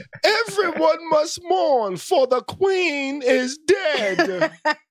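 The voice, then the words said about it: Mock medieval proclamation voice. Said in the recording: “Hit me with the voice again. Hit me with your medieval voice again. ... Please, do accent again.”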